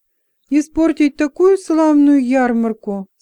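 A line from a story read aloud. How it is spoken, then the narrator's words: Tearful mumble. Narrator (Russian): сквозь слезы пробормотала Шара, уткнувшись мужу в плечо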